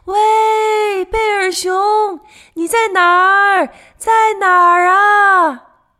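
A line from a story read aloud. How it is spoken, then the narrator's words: Shouting while walking. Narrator (Chinese): 他们边走边喊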